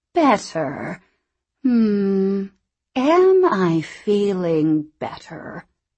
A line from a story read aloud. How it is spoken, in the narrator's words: She spoke slowly, clearly, mulling the words